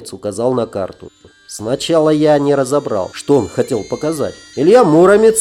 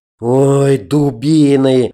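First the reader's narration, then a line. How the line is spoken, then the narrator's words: Disappointed drawl. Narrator (Russian): разочарованно протянул Пир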